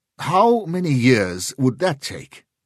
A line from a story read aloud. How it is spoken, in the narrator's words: Sheridan snapped